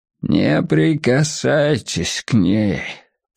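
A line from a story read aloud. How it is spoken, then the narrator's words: Distant cracked hoarse voice. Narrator (Russian): прохрипел надтреснутый голос из дальнего угла часовни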